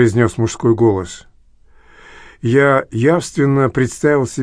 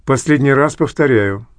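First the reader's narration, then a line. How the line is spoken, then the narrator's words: Plain. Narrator (Russian): ответила его мать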